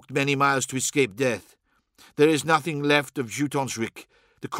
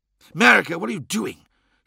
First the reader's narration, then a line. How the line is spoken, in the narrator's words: hissed Aldred